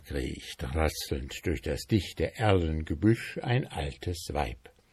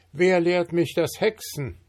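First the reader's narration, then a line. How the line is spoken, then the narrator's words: Called out. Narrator (German): er ruft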